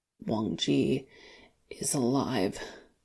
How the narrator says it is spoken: he croaks with great difficulty

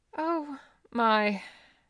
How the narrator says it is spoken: Judy murmured faintly

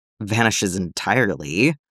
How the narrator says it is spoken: Bly mutters into his drink

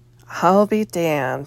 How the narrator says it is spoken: he mutters under his breath

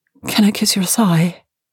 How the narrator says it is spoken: she blurts

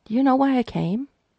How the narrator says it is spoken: Frank clapped his hands together a couple times nervously before he said

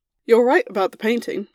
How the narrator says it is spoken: Merlin said cheerfully in way of greeting

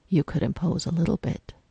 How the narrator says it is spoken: he said evenly

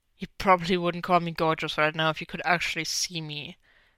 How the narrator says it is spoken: he muttered

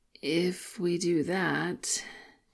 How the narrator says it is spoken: Hikaru says slowly

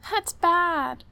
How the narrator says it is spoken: Wei Ying cries, burying his face in Liu Mehui's shoulder

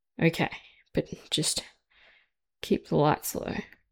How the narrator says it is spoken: he murmurs

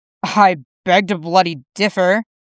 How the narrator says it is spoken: Constantine mutters

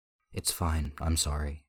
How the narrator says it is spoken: muttered Chan

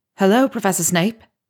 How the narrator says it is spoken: called out

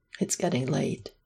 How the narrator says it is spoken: he murmured

